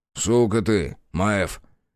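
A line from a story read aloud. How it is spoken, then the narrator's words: Snorted. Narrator (Russian): Бучило фыркнул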